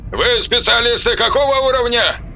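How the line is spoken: Man shouting. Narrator (Russian): прокричал мужской голос

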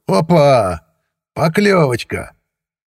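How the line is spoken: Joyful bark. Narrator (Russian): Сивый радостно гаркнул

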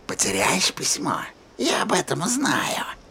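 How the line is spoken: Whisper. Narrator (Russian): прошептала Рия

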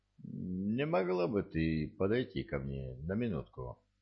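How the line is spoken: Quiet request. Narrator (Russian): негромко попросил

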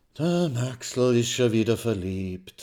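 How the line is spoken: Sighing. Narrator (German): seufzt die schwarze Hermine

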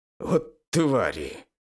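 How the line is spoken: Hissed. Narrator (Russian): прошипел я

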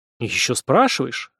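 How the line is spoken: Offended muttered reply. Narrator (Russian): обиженно буркнул в ответ Ким

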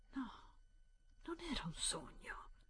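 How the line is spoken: Whispered. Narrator (Italian): bisbigliò

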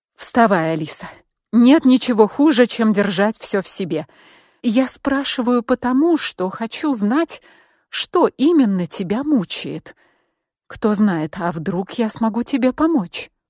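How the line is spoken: Soft and gentle. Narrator (Russian): Я старалась говорить мягко и ласково

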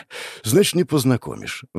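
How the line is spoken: Sighed. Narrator (Russian): вздохнул я

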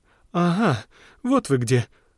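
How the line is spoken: Exclaimed. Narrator (Russian): воскликнула

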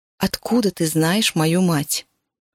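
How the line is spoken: Plain question. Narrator (Russian): снова спросила я

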